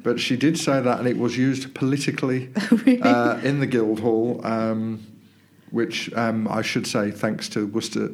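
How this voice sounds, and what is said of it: Sick, congested-sounding voice. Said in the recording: “as you can tell from my voice, I'm not very well. I've got man flu”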